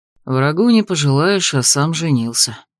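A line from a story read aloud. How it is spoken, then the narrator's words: Muttered under breath. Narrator (Russian): буркнул под нос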